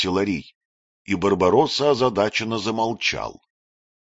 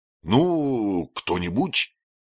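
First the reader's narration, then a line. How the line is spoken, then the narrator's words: Disappointed mutter. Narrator (Russian): буркнул он разочарованно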